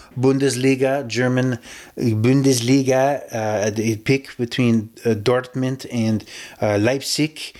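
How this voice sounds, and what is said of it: Put-on German accent. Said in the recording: “That's my German accent. I don't know if it works for you or not”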